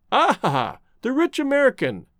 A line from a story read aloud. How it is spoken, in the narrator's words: chuckled the artist